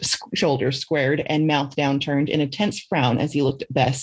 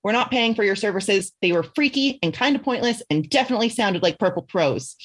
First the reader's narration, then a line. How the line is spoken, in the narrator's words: he spat